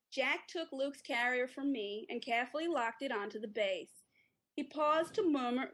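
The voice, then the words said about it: Attempted American accent. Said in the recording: “here is you in an American accent ... That was pretty good. ... it sounded more like Jersey Shore to me”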